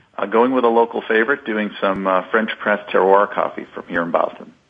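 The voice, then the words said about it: Slight Boston accent. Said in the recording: “I heard a little bit of that Boston accent sneak in there”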